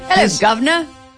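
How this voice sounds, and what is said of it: Put-on Cockney British accent. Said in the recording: “What is a Cockney accent? ... It's a lower class British accent”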